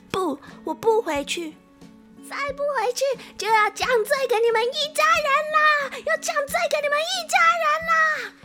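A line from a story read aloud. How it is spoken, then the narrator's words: Nervous shout. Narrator (Chinese): 喜鹊紧张的大喊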